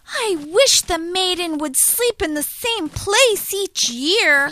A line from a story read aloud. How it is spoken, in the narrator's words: grumbled